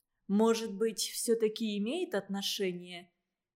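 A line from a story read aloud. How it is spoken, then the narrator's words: Gentle. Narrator (Russian): насколько могла мягко, сказала Вика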